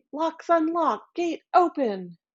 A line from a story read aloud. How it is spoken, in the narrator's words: Baba Yaga shouted at her gate